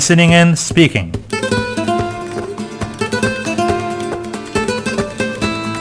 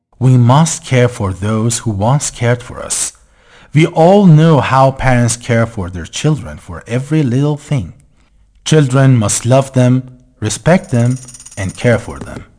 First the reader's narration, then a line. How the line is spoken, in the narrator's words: The old woman said calmly